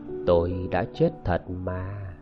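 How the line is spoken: Gentle. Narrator (Vietnamese): Cô ta nhẹ nhàng bảo

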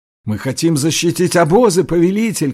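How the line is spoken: Group shouting. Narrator (Russian): кричали его люди

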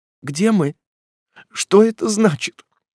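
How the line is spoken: Timid question. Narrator (Russian): робко осведомилась она

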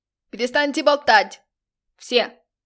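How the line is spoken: Yelled. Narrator (Russian): Заорал режиссер

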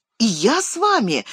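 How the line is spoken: Glad exclamation. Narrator (Russian): воскликнул обрадованный Мерри

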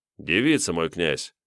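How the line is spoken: Calm. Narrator (Russian): спокойно покивал Тиун

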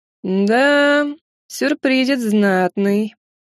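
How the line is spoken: Meaningful drawl. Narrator (Russian): многозначительно протянул лорд

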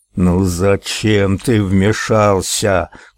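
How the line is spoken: Growled. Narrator (Russian): прорычал он

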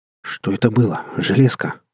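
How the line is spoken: Trembling question. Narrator (Russian): дрожащим голосом спросил я у ПБК

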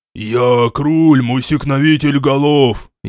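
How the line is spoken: Furious demon roar. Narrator (Russian): яростно прорычал демон

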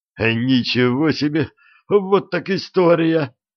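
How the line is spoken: Deep sigh, exclamation. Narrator (Russian): глубоко вздохнул, воскликнул

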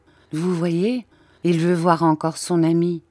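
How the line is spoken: Plain. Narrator (French): dit le père

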